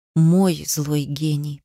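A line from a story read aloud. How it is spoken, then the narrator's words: Whisper. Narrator (Russian): повторила она шепотом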